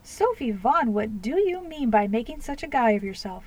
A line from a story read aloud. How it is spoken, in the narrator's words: exclaimed Emily